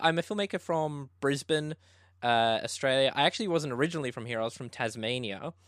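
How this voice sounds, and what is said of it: Australian accent. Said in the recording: “that explains the accent”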